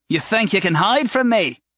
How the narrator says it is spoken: Jerick called out

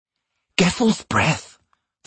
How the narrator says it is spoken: the stranger gasped

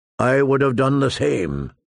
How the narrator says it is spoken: his uncle responded, a good deal more calmly than Tyrion might have

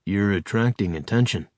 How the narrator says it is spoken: said Charles in a conversational tone designed not to carry to human ears

